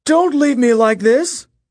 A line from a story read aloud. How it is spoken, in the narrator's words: Midas wailed